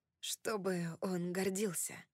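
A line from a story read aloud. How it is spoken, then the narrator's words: Quiet. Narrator (Russian): тихо произнес он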